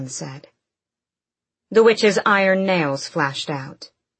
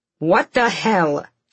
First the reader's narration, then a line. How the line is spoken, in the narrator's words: spat